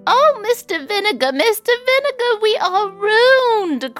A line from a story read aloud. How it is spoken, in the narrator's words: cried Mrs